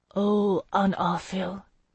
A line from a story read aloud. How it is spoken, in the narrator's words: Melisande murmured